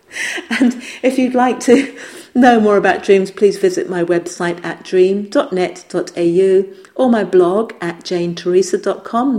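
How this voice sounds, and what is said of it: Speaks with a strange accent. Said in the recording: “my strange accent, which is something that I'm probably not really willing to change. It's been here for a long time with me.”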